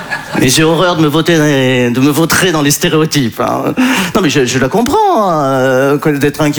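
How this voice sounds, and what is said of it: Usual voice. Nothing is said of it.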